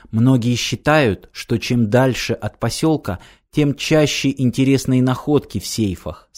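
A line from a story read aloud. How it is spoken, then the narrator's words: Plain. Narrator (Russian): сказала Ирина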